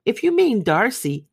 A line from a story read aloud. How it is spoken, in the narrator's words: cried her brother